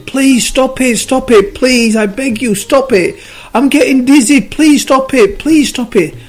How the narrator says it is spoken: the clay started screaming again

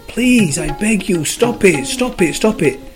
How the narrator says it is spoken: Every time he squashed the clay screamed

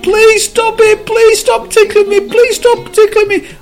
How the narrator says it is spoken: the cub screamed

